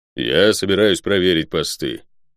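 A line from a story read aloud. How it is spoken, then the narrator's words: Low booming drone. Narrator (Russian): прогудел Водор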